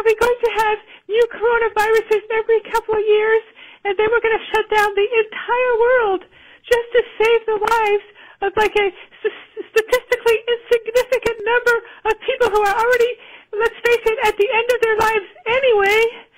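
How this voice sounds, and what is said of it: Phony wacky character voice. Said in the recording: “It's plainly a fake voice ... why are you doing a wacky character voice? ... In a phony voice.”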